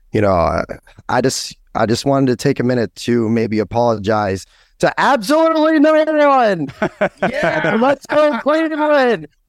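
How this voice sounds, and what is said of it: Hoarse, strained voice. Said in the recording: “My voice is still really shot.”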